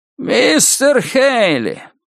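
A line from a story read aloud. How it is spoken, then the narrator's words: Creaky voice. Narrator (Russian): проскрипел Нуз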